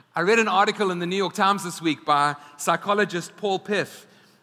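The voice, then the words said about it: Speaks with a noticeable accent. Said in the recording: “my accent”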